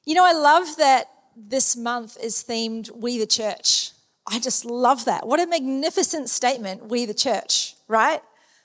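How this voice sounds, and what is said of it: Slight New Zealand accent. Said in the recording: “I am a Kiwi, so if you hear a little bit of an accent poke out every once in a while”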